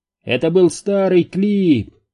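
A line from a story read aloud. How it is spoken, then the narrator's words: Distant shout. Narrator (Russian): прокричал кто-то с другого конца паба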